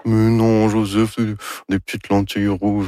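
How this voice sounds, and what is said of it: Imitates another person's voice. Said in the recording (French): “Ça, c'est mon imitation de Anne Dorval. ... Très réussi.”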